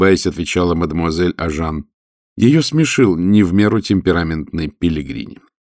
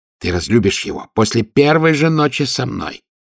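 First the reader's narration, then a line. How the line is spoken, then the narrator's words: Shouted whisper. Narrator (Russian): кричал шепотом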